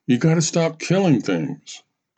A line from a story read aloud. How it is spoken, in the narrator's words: cried out